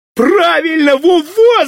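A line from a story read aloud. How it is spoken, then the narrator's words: Shouted. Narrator (Russian): закричал Володька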